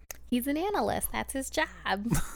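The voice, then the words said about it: Impression of Nina. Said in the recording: “my impression? Because it's bad or good? ... That's what Nina sounds like.”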